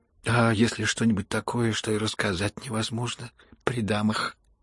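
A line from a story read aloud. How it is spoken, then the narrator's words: Timid young man's remark. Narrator (Russian): робко заметил молчавший юноша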